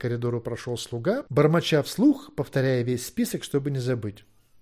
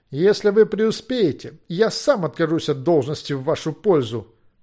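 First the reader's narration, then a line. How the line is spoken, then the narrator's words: Wry snort. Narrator (Russian): хмыкнул личный врач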